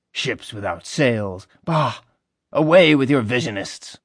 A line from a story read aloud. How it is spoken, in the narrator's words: Napoleon scoffed